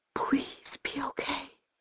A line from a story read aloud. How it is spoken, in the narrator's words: I whisper